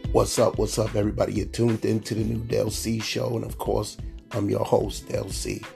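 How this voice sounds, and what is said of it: Sick, under-the-weather voice. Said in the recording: “you can tell in my voice that I'm still not 100% feeling well ... I'm a little still under the weather”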